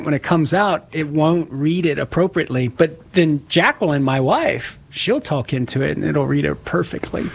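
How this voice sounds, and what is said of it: Southern Louisiana accent. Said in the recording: “it can't recognize my accent sometimes... from Southern Louisiana... I try to talk into it with my accent”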